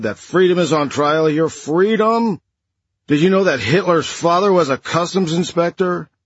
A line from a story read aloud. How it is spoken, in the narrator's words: he shouted